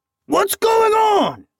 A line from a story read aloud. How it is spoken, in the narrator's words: shouted one of the bandits